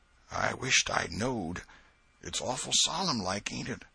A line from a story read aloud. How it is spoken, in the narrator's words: Huckleberry whispered